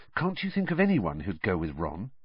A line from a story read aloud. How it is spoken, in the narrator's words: he said, lowering his voice so that Ron wouldn't hear